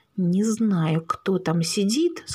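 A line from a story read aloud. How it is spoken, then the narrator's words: Through gritted teeth. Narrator (Russian): сквозь зубы процедил водитель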